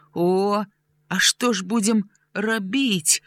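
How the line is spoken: Trembling question. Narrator (Belarusian): дрыготкім голасам спытаў Граня

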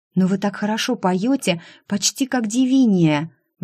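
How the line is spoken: Delighted exclamation. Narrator (Russian): восторженно воскликнула Бри

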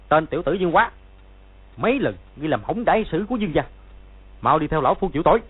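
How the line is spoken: Sharp shout. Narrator (Vietnamese): quát

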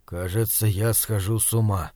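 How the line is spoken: Barely audible, nervous. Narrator (Russian): еле слышно проговорил Бирюков

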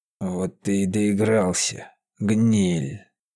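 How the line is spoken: Deep bass, huge devil. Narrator (Russian): пробасил огромный черт

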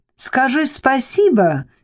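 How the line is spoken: Shouting. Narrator (Russian): крикнула Перси

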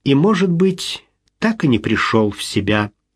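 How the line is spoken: Sad smiling tone. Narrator (Russian): грустно улыбнулась Мариэлла

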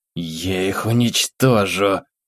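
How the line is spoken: Hissed. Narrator (Russian): прошипела

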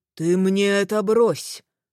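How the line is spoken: Growled. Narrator (Russian): рыкнул командир

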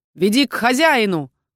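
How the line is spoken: Barked. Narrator (Russian): гаркнул на него я

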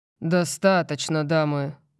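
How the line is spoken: Bored tone. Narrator (Russian): произношу я скучающим тоном

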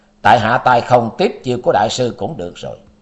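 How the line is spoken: Cold. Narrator (Vietnamese): Tư Đồ Văn lạnh lùng nói

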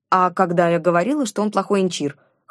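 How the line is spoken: Wry snort. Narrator (Russian): хмыкнула я

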